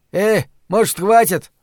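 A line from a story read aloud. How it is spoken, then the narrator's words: Shout. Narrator (Russian): крикнул Джек Джексон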